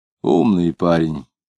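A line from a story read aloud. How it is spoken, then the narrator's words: Regretful. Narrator (Russian): сказал Кутузов, как будто с сожалением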